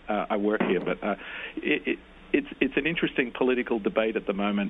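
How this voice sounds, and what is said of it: Non-American accent. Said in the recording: “as you can get from my accent, I'm not American”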